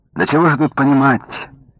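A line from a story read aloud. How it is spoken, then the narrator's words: Sad objection. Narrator (Russian): грустно возразил старший брат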